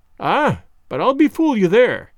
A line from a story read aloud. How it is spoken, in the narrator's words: cried the gentleman